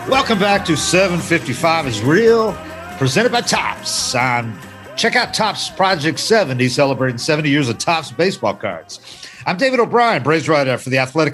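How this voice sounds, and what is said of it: Modulated radio announcer voice. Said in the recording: “This is my modulated radio voice ... I'll get out of that bullshit”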